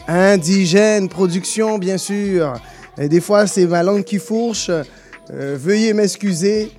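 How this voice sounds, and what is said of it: Guadeloupean French accent. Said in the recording (French): “J'essaie de travailler mon accent québécois. ... il y a encore du boulot. Mais je, je viens de la Guadeloupe, c'est ça qui se passe. ... Ouais, on l'a remarqué aujourd'hui.”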